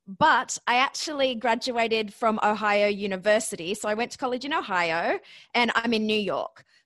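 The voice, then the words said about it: Australian accent. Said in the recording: “my accent. So yes, I'm Australian”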